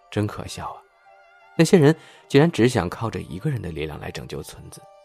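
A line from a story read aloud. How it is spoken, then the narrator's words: Sighing. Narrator (Chinese): S 先生突然叹了口气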